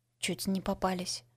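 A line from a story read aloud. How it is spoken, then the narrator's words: Mutter. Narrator (Russian): пробормотала Бонни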